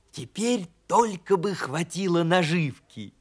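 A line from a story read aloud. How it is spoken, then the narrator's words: Whisper. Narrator (Russian): прошептал ежик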